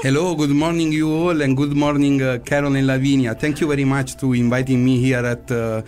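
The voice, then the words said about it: Speaks with a foreign accent. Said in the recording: “I just love your voice, your accent, the way he said my name”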